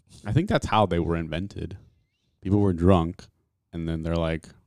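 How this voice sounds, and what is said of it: Usual voice. Nothing is said of it.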